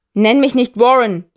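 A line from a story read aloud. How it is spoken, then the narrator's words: Roaring at someone. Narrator (German): brüllt er ihn an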